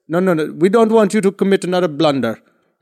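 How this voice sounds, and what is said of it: Imitated Indian accent. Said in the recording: “it's no disrespect to the accent. Obviously, this is just me trying to do the best.”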